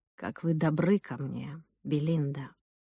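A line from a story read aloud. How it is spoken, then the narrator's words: Whisper. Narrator (Russian): прошептал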